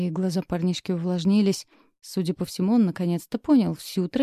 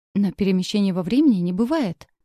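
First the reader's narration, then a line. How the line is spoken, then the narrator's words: Vexed self-convincing exclamation. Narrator (Russian): с досадой воскликнул, словно убеждая самого себя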